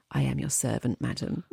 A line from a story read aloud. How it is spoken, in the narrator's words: he softly whispered